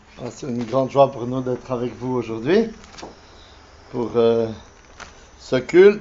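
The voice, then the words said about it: Swiss French accent. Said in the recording (French): “mon accent me trahit, bien sûr, je ne suis pas mulhousien de souche, mais suisse”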